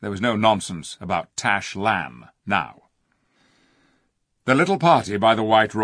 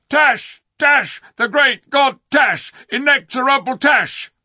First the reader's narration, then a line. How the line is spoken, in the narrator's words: all the Calormans shouted